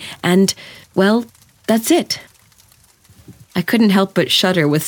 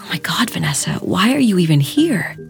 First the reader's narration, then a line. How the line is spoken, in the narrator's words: Debbie whispered urgently